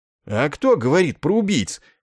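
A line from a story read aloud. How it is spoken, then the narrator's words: Indignant outburst. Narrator (Russian): возмущенно вскинулся Добз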